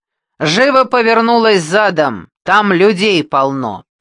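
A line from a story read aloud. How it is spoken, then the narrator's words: Nurse yelling. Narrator (Russian): Медсестра орала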